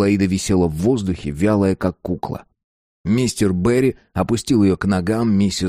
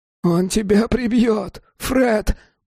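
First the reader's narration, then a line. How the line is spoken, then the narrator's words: Hoarse wheeze. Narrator (Russian): прохрипел Джим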